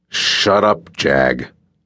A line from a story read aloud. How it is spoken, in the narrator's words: Wolf snarled